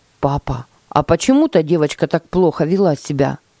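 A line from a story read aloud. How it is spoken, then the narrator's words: Plain. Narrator (Russian): спросил Тима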